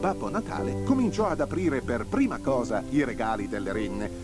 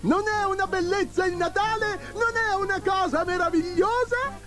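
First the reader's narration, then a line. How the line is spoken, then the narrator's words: Joyful shouting. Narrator (Italian): Babbo Natale gridando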